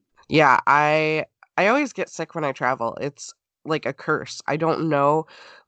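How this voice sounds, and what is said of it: Sick, congested voice. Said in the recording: “I've had 6 throat infections this year ... my sinuses are just shot. My voice is not great.”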